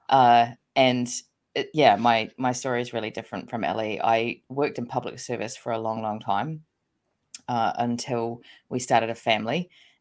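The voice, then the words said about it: New Zealand accent. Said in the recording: “I'm born and bred New Zealander from the accent”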